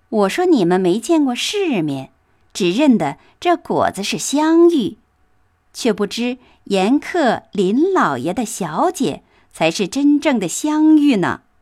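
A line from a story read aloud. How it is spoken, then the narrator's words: Laughing, little mouse. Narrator (Chinese): 小耗子……笑道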